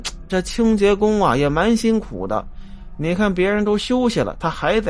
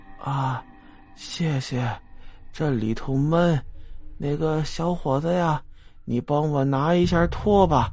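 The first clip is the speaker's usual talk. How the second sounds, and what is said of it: Tired, weary old woman's voice. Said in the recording (Chinese): “用疲倦的声音说”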